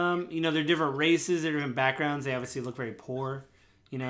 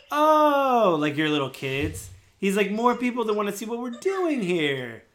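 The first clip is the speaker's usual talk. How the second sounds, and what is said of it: Condescending character voice. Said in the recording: “he talks in a really condescending voice.”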